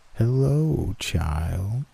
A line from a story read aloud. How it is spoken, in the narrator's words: it said in a low, raspy voice